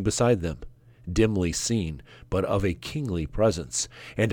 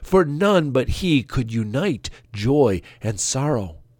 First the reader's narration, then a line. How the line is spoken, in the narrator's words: cried in gladness